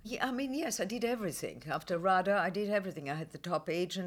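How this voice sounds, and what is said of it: Beautiful foreign accent. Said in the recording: “you've got this incredibly beautiful accent ... I did every foreign part, because there were no foreigners”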